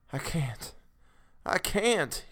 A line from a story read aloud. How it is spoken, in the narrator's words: he moaned